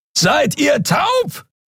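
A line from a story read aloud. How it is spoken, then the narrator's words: Distant roar across gap. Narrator (German): brüllte Keru von der anderen Seite des Portals über die Kluft zwischen zwei Planeten hinweg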